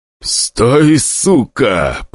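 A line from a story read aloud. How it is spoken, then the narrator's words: Hissed by the leader. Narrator (Russian): прошипел вожак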